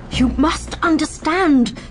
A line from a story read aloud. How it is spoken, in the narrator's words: the doctor pleaded